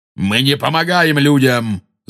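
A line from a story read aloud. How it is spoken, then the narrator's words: Angry centaur shout. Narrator (Russian): зло крикнул кентавр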